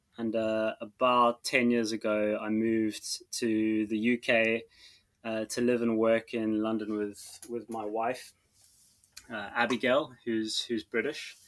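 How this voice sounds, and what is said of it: South African accent. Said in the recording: “my accent is slightly strange. I'm actually South African, born and raised in Cape Town.”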